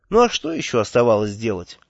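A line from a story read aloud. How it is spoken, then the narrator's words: Tired question. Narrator (Russian): устало спросил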